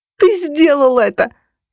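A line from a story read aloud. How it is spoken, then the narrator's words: Screaming. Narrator (Russian): завопила я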